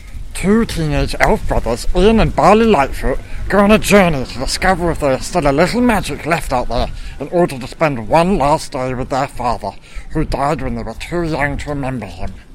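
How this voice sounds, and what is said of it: Dramatic heroic quest narrator voice. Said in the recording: “my heroic quest voice ... That was really good. I'm now going to ask you to do it in your normal voice”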